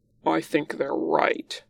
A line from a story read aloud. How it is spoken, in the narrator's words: Lan Zhan growls